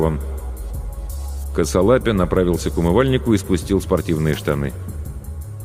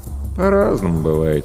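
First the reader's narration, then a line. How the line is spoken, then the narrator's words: Lazy reply. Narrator (Russian): лениво отозвался Денис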